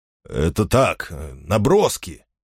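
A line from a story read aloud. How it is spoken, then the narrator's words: Grumbled. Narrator (Russian): буркнул Финолио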